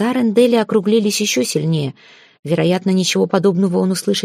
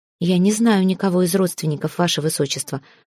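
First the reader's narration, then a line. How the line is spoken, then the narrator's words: Plain. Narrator (Russian): ответила Ори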